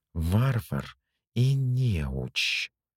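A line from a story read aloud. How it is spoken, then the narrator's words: Hissing. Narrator (Russian): прошипел маг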